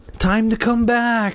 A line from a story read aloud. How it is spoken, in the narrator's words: Miss Fairchild whispered